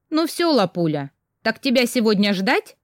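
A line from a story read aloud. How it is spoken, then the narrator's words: Mother's mock-stern question. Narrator (Russian): нарочито строго спросила мама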